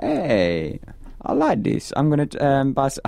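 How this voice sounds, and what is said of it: Put-on Italian accent. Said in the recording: “I don't know why I did that accent. ... Why do you become Italian?”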